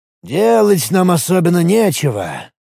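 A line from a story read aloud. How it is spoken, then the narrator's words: Sighing. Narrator (Russian): вздохнул Рифат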